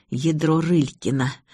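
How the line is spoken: Hissed. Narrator (Russian): прошипела я

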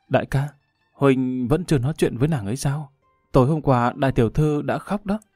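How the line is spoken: Soft sigh. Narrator (Vietnamese): Xào Xào khe khẽ thở dài

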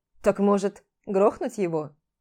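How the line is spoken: Amused snort. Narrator (Russian): хмыкнул

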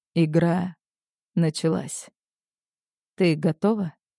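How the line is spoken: Quiet, ominous. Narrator (Russian): Тихо произносит он

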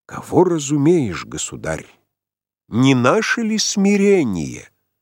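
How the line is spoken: Solemn question. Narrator (Russian): Отец Яков спросил торжественно

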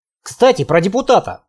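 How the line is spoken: Snorting. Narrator (Russian): хмыкнул я

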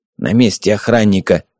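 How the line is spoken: Old man grumbling. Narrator (Russian): буркнул старик

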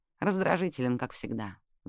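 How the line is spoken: Mother's sigh. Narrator (Russian): вздохнула мама

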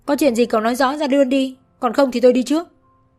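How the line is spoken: Exasperated yelling. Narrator (Vietnamese): Thật sự không thể nhìn thêm được nữa, Nguyệt gào lên

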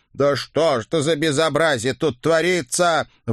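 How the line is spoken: Loud howling ghoul. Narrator (Russian): в голос взвыл кто-то из вурдалаков

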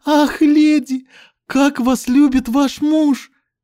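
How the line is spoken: Delighted exclamation, maid. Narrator (Russian): Восторженно воскликнула служанка

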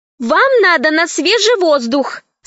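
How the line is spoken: Loud, for all to hear. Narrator (Russian): сказала Алиса громко, чтобы кто хочет услышать, услышал

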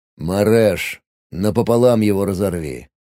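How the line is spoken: Lazy telepathic order. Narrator (Russian): Лениво отдал я приказ по ментальной связи

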